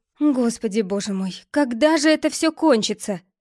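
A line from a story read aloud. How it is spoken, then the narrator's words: Anguished moan. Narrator (Russian): Простонала Гвен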